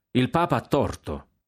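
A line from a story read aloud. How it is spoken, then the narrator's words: Laughing. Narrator (Italian): aggiunse ridendo il generale Guillaume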